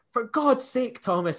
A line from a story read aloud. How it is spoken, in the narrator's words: in his thick Edinburgh accent